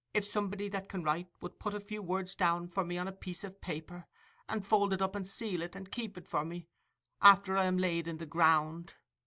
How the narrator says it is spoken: faltered the child

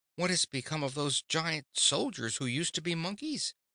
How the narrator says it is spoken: exclaimed Dorothy

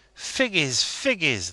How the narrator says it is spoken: they cried

